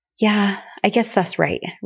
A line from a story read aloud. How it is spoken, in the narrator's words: Rick agreed, heaving a heavy sigh